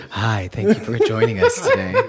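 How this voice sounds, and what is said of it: Smooth NPR-style public radio voice. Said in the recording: “I'm going to use my NPR voice today.”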